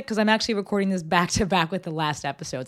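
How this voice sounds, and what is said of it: Sick-sounding voice. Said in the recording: “My voice is still doing what it's doing because I'm still sick.”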